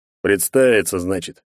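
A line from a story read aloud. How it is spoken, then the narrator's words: Big man's snort. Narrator (Russian): хмыкнул здоровяк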